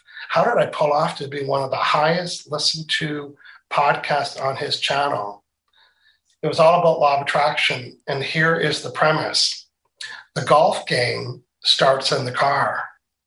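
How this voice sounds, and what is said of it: Canadian Maritimes accent. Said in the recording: “you can tell I have a Canadian accent ... you're from the Maritimes, aren't you? Just when I say car.”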